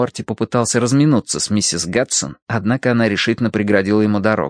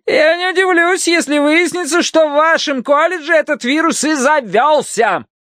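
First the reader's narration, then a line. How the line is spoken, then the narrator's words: Shout after someone. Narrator (Russian): крикнула им вдогонку миссис Гадсон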